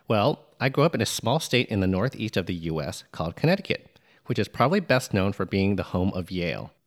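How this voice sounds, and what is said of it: Neutral American accent. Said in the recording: “you speak American English ... Most people in Connecticut speak with what is considered to be a fairly neutral American accent. One way you can tell is the way I pronounce my R's”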